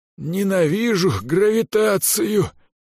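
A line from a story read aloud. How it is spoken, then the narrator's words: Groaned in a strange voice. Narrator (Russian): простонал чужим голосом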